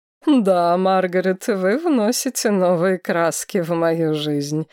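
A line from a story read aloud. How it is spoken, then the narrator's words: Laughing. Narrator (Russian): рассмеялся Линнард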